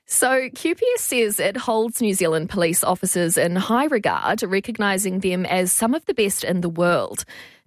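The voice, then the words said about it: New Zealand accent. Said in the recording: “I can't go on without referencing your accent. ... Did we steal you?”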